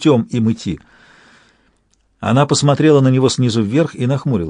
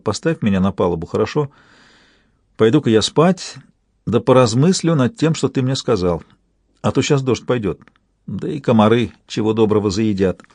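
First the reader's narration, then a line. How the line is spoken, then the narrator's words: Unhappy sighing request. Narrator (Russian): с несчастным видом вздохнула она и попросила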